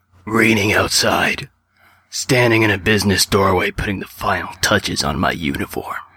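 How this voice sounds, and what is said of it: Pseudo Heisenberg impression voice. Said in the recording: “that voice you do ... your pseudo Heisenberg voice”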